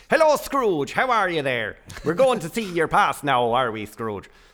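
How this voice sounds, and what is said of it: Put-on Irish accent. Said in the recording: “I spoke in a kind of Irish accent. It was like this. ... So you did it in an Irish accent.”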